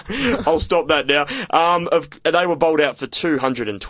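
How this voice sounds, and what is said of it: Usual voice. Nothing is said of it.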